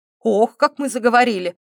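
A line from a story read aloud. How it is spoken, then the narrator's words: Smirking. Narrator (Russian): усмехнулся Дамир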